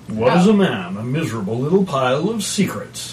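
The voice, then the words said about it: Dracula character voice. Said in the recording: “You're Dracula. ... I'm totally Dracula.”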